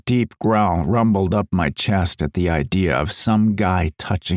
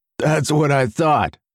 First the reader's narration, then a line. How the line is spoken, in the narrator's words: Mark chuckled